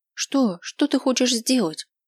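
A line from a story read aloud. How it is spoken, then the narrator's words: Frightened question. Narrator (Russian): спрашивает испуганно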